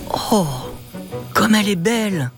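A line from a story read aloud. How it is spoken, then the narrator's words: Exclaiming. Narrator (French): s'exclame Matteo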